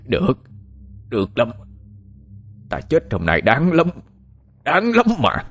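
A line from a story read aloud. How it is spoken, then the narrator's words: Shouting. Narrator (Vietnamese): Anh ta hét lên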